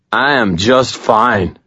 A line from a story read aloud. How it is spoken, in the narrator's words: Chuck slurred, scowling